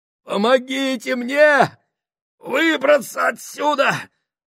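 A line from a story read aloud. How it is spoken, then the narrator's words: Moaning. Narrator (Russian): стонал Гослинг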